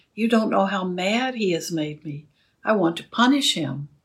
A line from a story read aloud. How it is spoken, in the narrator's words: And I was very upset and cried to her